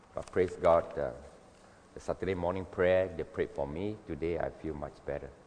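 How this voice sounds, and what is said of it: Voice sounds a bit funny. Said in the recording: “my voice sounds a little bit funny, it's because I just recovered from a bout of cough and flu”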